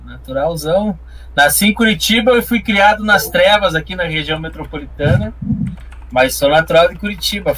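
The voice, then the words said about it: Strong rural Paraná accent. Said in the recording (Portuguese): “o sotaque é mais do interior ... deixou forte esse sotaquinho”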